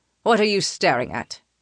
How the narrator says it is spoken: He snaps

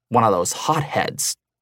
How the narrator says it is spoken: the other scoffed

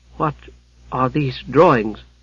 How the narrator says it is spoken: she faltered

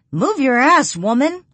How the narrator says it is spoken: I holler at her

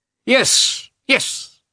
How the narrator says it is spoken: he cried in a shrill voice

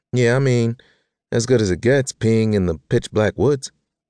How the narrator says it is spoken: she groaned

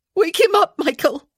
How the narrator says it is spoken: she cried

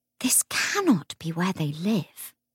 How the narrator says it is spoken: Lucy whispered, half in amazement, half in horror

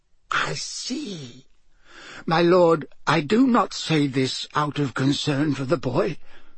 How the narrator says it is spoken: said Wormtail, his voice rising squeakily

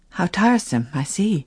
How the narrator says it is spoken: she affirmed with the more earnestness, because she was so nervously conscious that she did not

